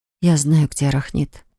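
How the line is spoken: Quiet, interrupting. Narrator (Russian): тихо произнесла я, прерывая речь императора

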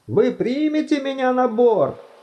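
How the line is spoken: Shouted between strenuous strokes. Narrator (Russian): крикнул между яростными взмахами Думинг

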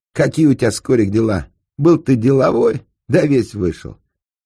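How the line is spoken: Snide, mocking. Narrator (Russian): Проха ему ехидно так

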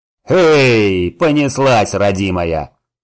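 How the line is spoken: Deep bass voice. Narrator (Russian): пробасил возница

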